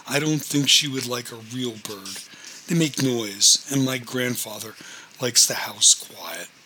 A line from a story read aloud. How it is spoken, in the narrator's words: Denise giggled and said